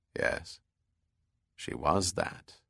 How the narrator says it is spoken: said Bell softly

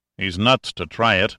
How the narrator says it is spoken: Dover said dryly

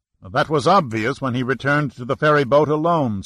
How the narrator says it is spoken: Saracen said sharply to Amaru

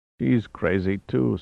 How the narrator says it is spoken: Salazar rasped

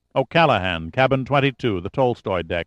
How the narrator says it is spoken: Giordino said

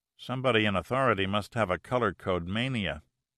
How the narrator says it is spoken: Giordino muttered under his breath

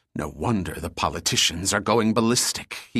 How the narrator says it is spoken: hissed

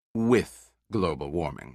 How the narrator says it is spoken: said firmly

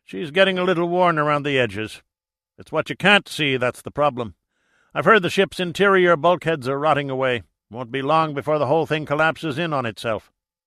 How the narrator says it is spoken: he sighed

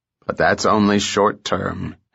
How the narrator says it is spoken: Hennessy countered gloomily

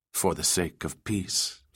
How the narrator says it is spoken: Fiona replied, her voice as steady as she could keep it

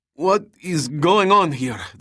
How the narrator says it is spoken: the captain stammered, fighting to recollect his English in the middle of the night

